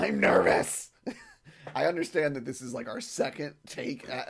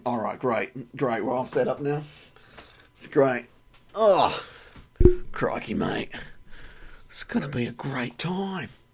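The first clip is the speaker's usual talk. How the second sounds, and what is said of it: Bad put-on Australian accent. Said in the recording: “if you're gonna do a shitty fucking Australian ... Accent. ... Not with that fucking accent, it ain't.”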